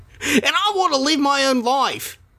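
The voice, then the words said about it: Switches to a different accent. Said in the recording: “You're changing accents.”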